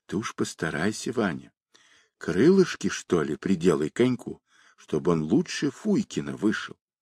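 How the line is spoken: Whisper. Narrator (Russian): Аксютка шептала

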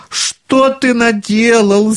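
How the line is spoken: Child screaming. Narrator (Russian): завопил маленький Клаус

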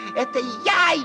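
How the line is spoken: Shouting at full volume. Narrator (Russian): лягушка не выдержала и, забыв всякую осторожность, закричала изо всей мочи

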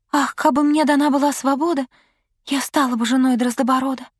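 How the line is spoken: Sighing whisper. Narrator (Russian): Королевна вздохнула и прошептала

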